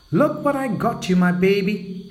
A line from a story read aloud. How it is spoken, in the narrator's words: shouted out happily